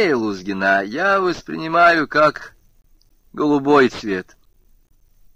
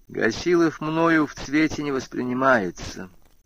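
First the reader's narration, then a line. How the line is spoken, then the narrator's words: Quiet. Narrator (Russian): тихо произнес он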